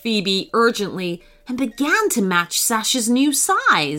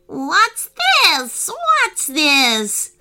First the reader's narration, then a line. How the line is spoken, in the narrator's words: screeched the monkey